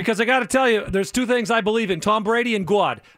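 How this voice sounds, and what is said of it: Put-on Boston accent. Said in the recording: “when ... and I do this accent there, kid ... It's not that part of Massachusetts. It's the other side. Not Boston ... I don't have that accent”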